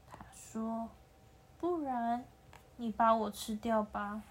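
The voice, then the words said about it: Very quiet, soft voice. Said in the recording (Chinese): “很小声的说”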